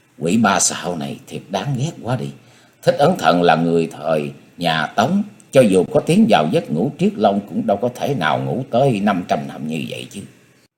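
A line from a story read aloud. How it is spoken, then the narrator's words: Soft sulky sigh. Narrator (Vietnamese): Diệp Linh Tô khe khẽ thở ra giọng giận dỗi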